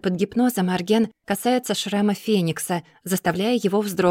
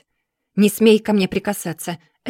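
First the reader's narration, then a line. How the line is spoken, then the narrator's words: Angry bark. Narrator (Russian): рявкает Феникс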